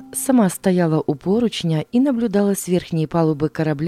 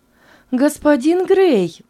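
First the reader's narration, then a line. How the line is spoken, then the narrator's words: Exclamation. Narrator (Russian): воскликнула она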